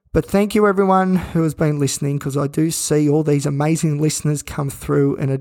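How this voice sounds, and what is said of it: Flat, croaky, unwell-sounding voice. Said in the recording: “probably even hear it in my voice. We're pretty flat. We're pretty croaky. ... my voice is all croaky”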